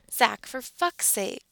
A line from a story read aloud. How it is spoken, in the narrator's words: he whines